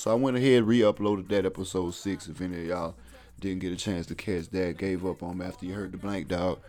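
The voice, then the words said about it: Tired, exhausted-sounding voice. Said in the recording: “I know you can hear it in my voice. I'm a little exhausted, a little tired.”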